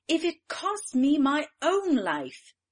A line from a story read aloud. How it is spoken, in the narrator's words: cried she